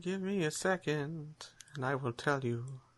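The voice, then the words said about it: Magical, melodic, cheerful character voice. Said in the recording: “in a magical voice ... I didn't realize you were so melodic. ... She sounds a lot more cheerful suddenly.”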